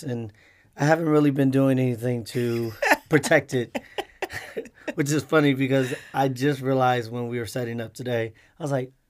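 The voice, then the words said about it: Hoarse, deep, strained voice. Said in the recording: “I lost my voice ... that's why my voice is like this. If you like the deep voice”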